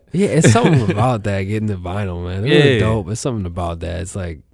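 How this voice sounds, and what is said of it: Deep voice, congested by allergies. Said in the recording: “I got allergies. They know. My voice is deep.”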